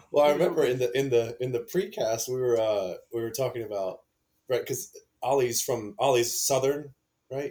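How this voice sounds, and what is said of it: American accent with a twang. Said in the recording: “The twang that comes with it with your accent.”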